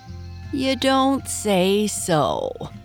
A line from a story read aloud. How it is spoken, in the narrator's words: drawled Reddy Fox